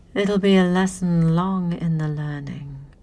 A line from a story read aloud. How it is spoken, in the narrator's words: she said in a calm, regal voice